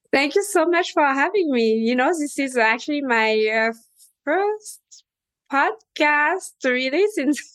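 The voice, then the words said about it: French Caribbean accent. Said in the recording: “as you can tell, I have the French accent plus the Caribbean spice on top of it”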